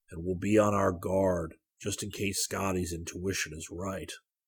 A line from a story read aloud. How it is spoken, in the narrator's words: Zircon said quietly